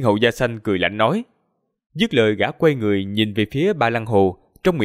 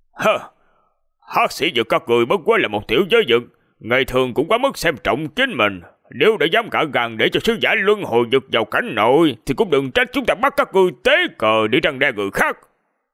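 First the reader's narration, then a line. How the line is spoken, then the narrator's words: Furious scolding. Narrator (Vietnamese): Miêu Tú càng giận dữ quát mắng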